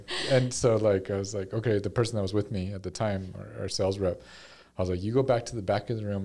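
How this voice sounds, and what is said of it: Quiet, monotone voice. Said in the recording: “I'm very monotone. You can't hear me already.”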